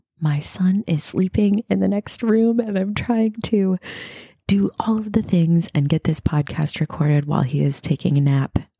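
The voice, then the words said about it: Whispering. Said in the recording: “If it sounds like I'm whispering a little bit, it's because I am.”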